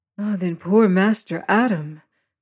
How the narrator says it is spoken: she sighed

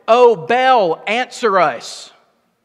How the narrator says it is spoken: They shouted

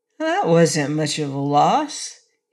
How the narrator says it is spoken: he said cheerfully

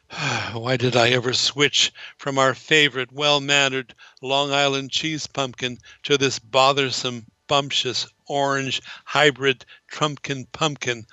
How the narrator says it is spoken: I groaned

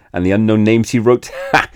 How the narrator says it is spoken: he laughed to think of it

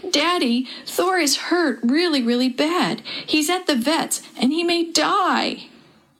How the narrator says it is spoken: Perry threw herself into his arms and cried

